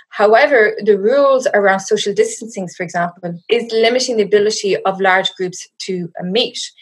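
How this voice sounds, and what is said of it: Irish accent. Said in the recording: “you'll hear from my accent. I am not from South Africa. I'm currently hiding out in my parents' house in the west of Ireland.”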